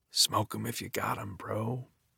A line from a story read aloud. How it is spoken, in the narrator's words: all Rakesh can do is whisper